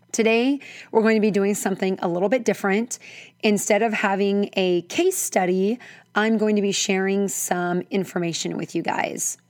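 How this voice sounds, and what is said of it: Hoarse, froggy voice. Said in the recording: “excuse my voice... I'm a little bit hoarse... my froggy voice... I squeak or crack a little bit”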